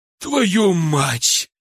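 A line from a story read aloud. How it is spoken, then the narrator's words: Exhaled words. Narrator (Russian): выдохнул он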